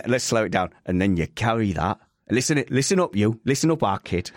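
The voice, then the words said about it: Put-on regional accent. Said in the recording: “Just so you can do the accent”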